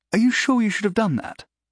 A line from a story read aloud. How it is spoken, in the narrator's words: Clive asked, nervously